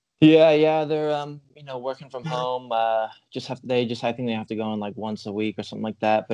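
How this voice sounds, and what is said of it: Slight American accent. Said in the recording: “I hint a bit of an American accent there”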